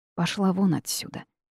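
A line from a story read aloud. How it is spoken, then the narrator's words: Low chest growl. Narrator (Russian): тихо рыкнула я, чувствуя вибрацию в груди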